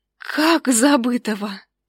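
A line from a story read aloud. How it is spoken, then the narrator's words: Disbelieving whisper. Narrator (Russian): Неверяще прошептала я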